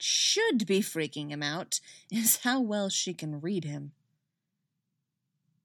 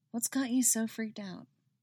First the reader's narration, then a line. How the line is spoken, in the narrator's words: says softly